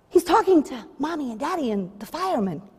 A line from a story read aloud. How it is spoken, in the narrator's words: came the whispered response, growing concerned and even worried